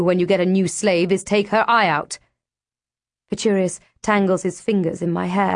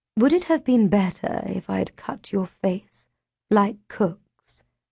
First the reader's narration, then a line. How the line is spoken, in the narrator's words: She murmurs